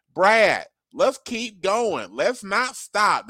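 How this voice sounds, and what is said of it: Thelma and Louise impersonation. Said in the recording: “best Thelma and Louise impersonation”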